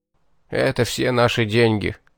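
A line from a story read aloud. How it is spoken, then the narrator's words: Muffled dull voice. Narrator (Russian): глухо сообщил он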